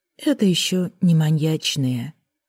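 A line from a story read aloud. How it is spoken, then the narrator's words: Perfectly calm. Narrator (Russian): совершенно спокойно отозвались с кресла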